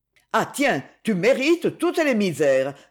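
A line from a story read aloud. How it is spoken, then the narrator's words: Indignant exclamation. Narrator (French): s'exclama Donna indignée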